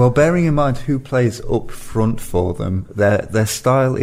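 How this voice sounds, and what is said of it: Usual voice. Nothing is said of it.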